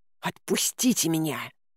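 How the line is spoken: Hissing. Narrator (Russian): шипела я

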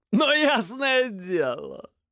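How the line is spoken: Laughing, cheerful or mocking. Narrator (Russian): Смеялся то ли весело, то ли издеваясь незнакомец

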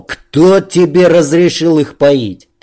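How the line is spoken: Angry shout. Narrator (Russian): злобно прокричал

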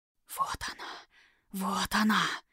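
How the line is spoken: Spreading whispers. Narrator (Russian): понеслись шепотки

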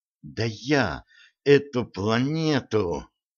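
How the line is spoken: Hissed, flushed with anger. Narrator (Russian): прошипела багровея Стесси

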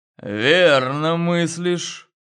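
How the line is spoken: Said through teeth. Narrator (Russian): процедил

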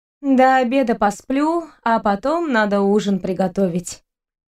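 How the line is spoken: Sigh. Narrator (Russian): вздохнула Вика

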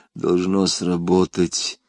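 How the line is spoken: Mutter. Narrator (Russian): пробормотал он

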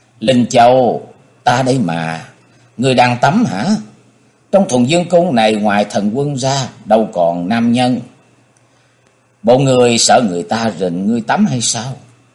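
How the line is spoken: Smiling reply. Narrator (Vietnamese): Người này nghe hỏi mỉm cười đáp

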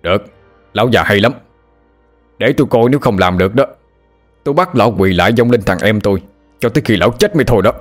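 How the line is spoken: Angry shout. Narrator (Vietnamese): Người nhảy tà dậm chân quát lên

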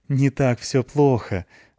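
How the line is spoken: Laughing. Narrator (Russian): засмеялась Тоня

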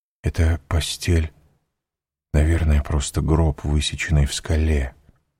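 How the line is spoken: Whispered. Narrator (Russian): прошептал Данглар

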